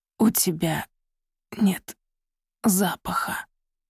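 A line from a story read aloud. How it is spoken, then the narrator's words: Strained words. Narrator (Russian): выдавил он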